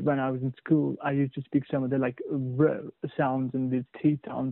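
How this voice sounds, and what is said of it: British accent, Indian-born speaker. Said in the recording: “from Indian to British accent, okay, right now you speak in British completely”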